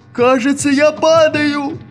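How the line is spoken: Shout. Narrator (Russian): закричал Вахмурка

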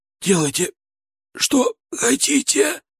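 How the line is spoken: Hoarse rasp. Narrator (Russian): прохрипел

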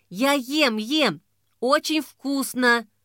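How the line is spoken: Lisping through full mouth. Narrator (Russian): проговорила Мила шепеляво, потому что рот ее был занят горячей картошкой

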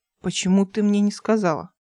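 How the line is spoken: Displeased question. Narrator (Russian): спросил недовольным тоном

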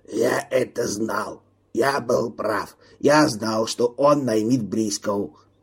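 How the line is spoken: Strained hoarse rasp. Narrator (Russian): Кук, который все время молчал, возможно, сорвал голосовые связки, прохрипел

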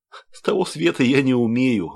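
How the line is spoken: Laughing. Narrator (Russian): засмеялась Ольга

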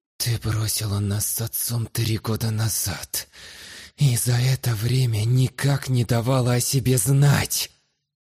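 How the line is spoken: Aggressive youthful hiss. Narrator (Russian): прошипел я, добавляя в голос побольше юношеской агрессии

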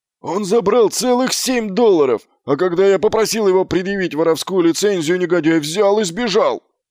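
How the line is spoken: Yelling. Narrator (Russian): завопил Фланнель

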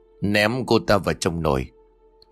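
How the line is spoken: Sinister smiling man. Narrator (Vietnamese): Người đàn ông mỉm cười nhăm hiểm rồi nói

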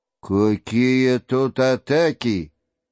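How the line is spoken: Bored, irritated voice. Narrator (Russian): сказал начальник скучливым голосом, морщась, как от докучливой мухи

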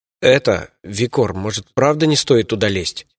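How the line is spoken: Timid question. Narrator (Russian): робко поинтересовался Алдан

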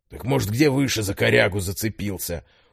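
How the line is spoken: Doubtful deep bass. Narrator (Russian): усомнился второй, он говорил густым басом

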